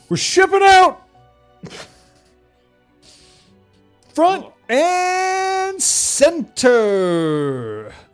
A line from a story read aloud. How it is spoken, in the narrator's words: a particularly loudmouthed student just shout